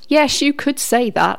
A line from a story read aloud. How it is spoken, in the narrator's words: laughed Howard